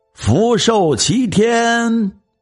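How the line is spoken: Loud calling funeral crier. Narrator (Chinese): 喊丧人又高声问

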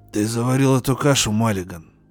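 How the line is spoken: Hoarse rasp. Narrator (Russian): Прохрипел он

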